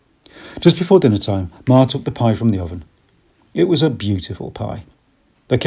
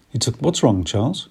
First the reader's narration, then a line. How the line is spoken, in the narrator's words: Ma asked quickly